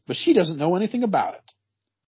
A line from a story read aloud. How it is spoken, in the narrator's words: snapped Skegg